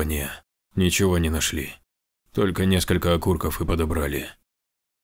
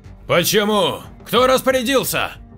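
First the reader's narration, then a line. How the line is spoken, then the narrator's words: Shouting while running. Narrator (Russian): На бегу закричал Рейхард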